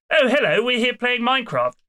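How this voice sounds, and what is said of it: Effeminate British accent. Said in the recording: “British accent ... It may seem a little effeminate”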